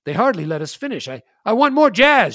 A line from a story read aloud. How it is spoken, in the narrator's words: shouted Mustache Bill